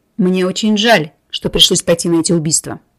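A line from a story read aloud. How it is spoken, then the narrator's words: Calm confirmation. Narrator (Russian): спокойно подтвердил Семен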